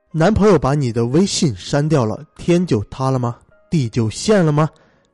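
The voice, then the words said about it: Thick-tongued lisping speech. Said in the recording (Chinese): “以大家久违的这个大舌头口音”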